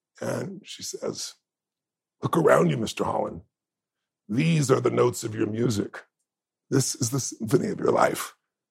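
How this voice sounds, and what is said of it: Emotional, choked-up voice. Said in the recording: “sorry, I get emotional. I'm so silly. I'm an emotional guy.”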